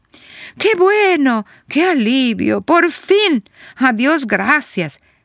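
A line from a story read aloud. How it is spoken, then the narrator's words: Joyful shouts. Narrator (Spanish): Salen los gritos de alegría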